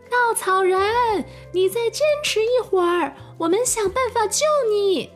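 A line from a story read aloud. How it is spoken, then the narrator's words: Breathless shout. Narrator (Chinese): 他们上气不接下气的对着稻草人喊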